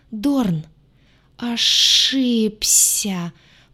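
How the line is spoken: Hissing. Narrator (Russian): прошипел

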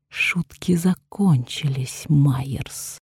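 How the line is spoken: Hissing woman. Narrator (Russian): прошипела она

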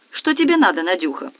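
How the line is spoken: Angry question. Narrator (Russian): сердито поинтересовалась Тина

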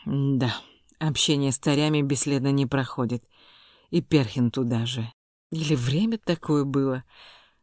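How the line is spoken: Sigh. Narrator (Russian): вздохнул Снегирёв

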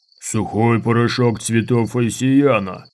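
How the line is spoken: Deep growl. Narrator (Russian): прорычал борец глубоким голосом

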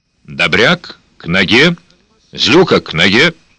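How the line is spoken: Calm and quiet. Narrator (Russian): Слова прозвучали спокойно и негромко

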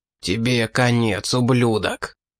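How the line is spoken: Triumphant spitting hiss. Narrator (Russian): Брызгая слюной, вампир торжествующе прошипел

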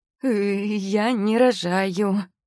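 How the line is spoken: Strained girl's voice. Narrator (Russian): выдавила из себя девушка

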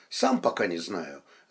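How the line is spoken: Thoughtful. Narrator (Russian): задумчиво ответил Лев

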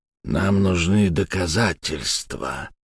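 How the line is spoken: Quiet. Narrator (Russian): тихо сказал Керн

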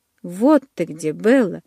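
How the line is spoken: Relieved exclamation. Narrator (Russian): с облегчением воскликнул Майк

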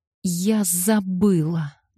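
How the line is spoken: Moaning. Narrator (Russian): ответила она и застонала

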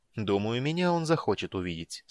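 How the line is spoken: Calm. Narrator (Russian): спокойно заметил Рейслин

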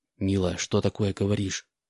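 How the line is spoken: Whispered address. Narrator (Russian): шепотом обратился Стив к Анне

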